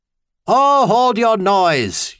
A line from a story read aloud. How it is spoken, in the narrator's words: Euthane had bellowed back through his speaking trumpet